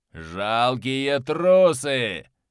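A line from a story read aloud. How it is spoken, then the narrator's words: Loud roar from unseen speaker. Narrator (Russian): громко заревел Торсфель, которого по-прежнему не было видно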